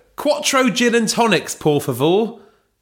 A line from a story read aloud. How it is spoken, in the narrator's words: shouted Belinda